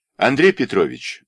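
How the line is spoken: Plain. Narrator (Russian): сказала секретарша

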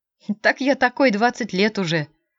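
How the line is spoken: Laughing. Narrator (Russian): засмеялся Спасский

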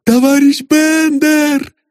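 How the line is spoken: Delighted shout. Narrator (Russian): закричала вдова в восторге

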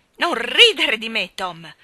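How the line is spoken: Irritated shout. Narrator (Italian): gridò irritata

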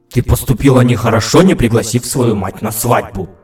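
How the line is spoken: Grumbling with short chuckle. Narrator (Russian): проворчала королева и коротко усмехнулась

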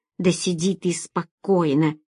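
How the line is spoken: Irritated rebuke. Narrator (Russian): раздраженно одернул ее господин Касли

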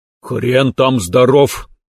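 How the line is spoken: Snorted. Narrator (Russian): фыркнул

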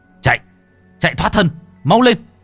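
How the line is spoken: Shout. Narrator (Vietnamese): Kính quát

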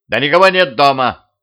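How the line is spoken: Shout. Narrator (Russian): крикнул я

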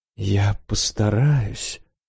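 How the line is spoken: Whisper. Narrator (Russian): прошептал чинуша

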